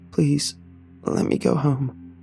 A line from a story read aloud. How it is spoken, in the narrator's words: croaked, hot tears starting to fall